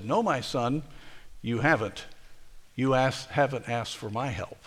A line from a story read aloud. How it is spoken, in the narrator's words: With kindness, softly said